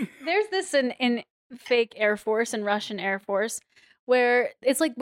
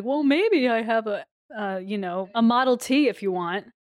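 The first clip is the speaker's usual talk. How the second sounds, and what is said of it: Character voice, slightly smoother than own. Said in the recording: “really good Nino impression ... my Ivana impression ... It was bad then ... I have one voice and it's just a couple degrees smoother than my own”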